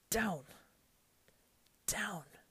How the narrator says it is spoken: he gasped

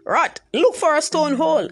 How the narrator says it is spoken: Anansi shouted

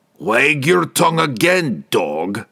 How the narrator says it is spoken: roared

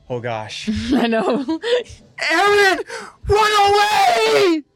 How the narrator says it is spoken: Armin screams out

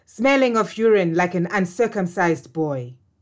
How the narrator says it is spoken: Amakombe yelled

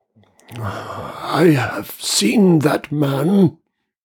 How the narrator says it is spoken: he began in a dry whisper

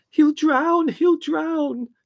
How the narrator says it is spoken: screamed Margot, who always tended to look on the dark side of a crisis

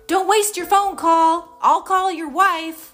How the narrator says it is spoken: Harry yell

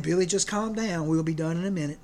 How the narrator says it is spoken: Dad was quietly saying

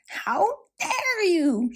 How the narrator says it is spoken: she yelled at Rapunzel

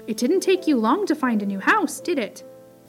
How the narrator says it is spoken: exclaimed Peter

